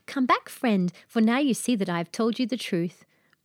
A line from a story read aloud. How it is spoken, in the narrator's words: the maiden cried